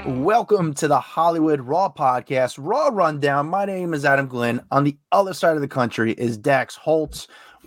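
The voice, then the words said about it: Hoarse, failing voice. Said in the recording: “My voice is going. ... are you okay? ... I've been back and forth of just being sick.”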